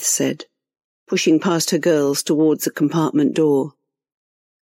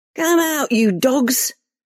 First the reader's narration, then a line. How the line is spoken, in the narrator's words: Reva shouted into the darkness